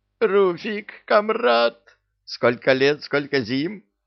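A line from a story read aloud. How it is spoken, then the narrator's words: Joyful yell. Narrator (Russian): радостно завопил Люка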